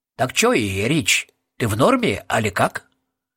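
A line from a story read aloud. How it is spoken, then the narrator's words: Quiet. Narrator (Russian): Роб тихо добавил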